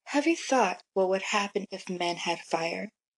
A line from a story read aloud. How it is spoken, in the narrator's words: Zeus asked